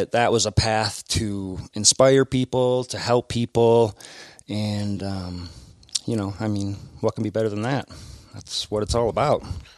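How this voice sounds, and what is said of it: Midwestern American accent. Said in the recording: “enamored with your accent ... Making fun of my Midwest accent.”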